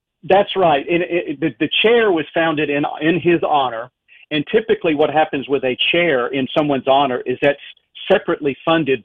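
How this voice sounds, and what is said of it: Strong Southern US accent. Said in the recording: “my egregious Southern accent”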